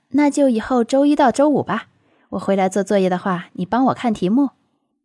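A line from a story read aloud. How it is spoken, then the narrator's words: Smiling, masking unease. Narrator (Chinese): 楚西面上却不显，继续笑道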